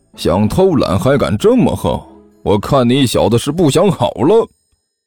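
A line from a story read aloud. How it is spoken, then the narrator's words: Sneering. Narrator (Chinese): 有人冷笑着说道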